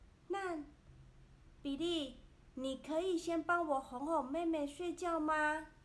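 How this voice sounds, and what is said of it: Usual voice. Nothing is said of it.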